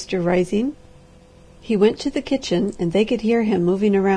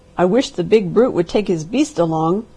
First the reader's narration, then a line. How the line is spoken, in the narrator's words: growled Mr